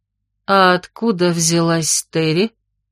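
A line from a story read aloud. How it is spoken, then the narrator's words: Strained, breathless. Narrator (Russian): с замирающим сердцем выдавила Фанни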